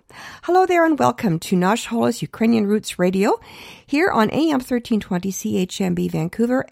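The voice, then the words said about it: Voice with a slight cold. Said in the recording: “As you can hear, I've got a little bit of a cold,”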